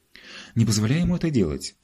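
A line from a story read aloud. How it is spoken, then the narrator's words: Horrified exclamation. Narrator (Russian): воскликнула мама в ужасе от такой мысли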